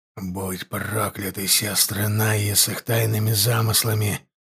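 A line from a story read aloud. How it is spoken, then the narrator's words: Hissing. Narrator (Russian): прошипел он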